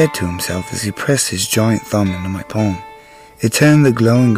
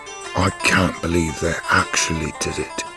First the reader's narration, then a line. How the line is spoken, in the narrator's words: he said to himself quietly